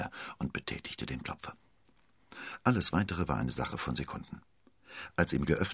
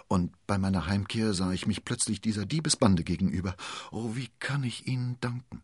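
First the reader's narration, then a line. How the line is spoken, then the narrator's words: Stammering young woman. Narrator (German): stammelte die junge Dame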